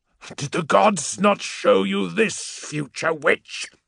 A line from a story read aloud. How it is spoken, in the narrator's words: he spat